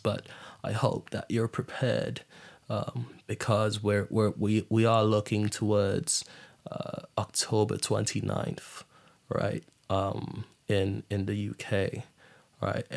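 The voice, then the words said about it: Put-on British accent. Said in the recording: “I'm not sure how good my British accent is”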